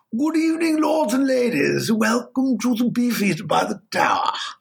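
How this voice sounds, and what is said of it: Silly put-on English accent. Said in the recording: “this very silly English accent”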